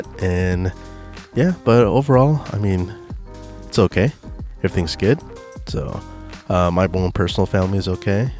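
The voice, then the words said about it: Voice still recovering, slightly rough. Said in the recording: “just gone through some COVID ... my voice is a little bit recovering from that”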